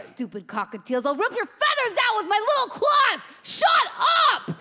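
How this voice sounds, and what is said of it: Yelling angrily. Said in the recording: “Why are you yelling at those birds?”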